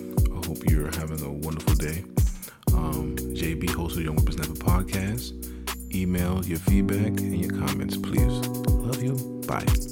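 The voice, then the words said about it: Deep smooth radio voice. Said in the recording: “What was this Barry White radio voice shit?”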